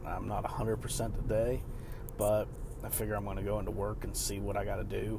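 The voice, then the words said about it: Weakened, unwell-sounding voice. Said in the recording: “Also apologize for my voice. I'm a little bit recovering.”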